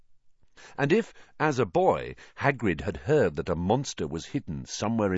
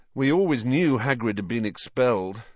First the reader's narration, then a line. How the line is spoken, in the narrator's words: said Harry miserably